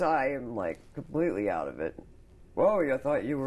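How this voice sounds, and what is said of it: Usual voice. Nothing is said of it.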